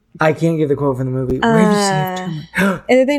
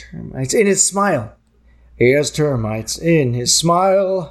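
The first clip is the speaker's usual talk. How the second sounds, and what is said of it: Good Grinch character voice. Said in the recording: “You do a good Grinch voice.”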